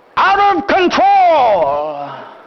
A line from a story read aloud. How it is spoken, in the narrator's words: with a yell, with a roar, I will yell out